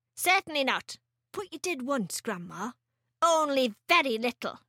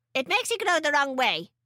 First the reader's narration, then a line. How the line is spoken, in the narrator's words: she snapped